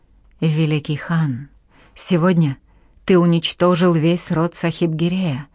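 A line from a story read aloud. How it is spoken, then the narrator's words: Solemn proclamation. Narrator (Russian): торжественно провозгласил он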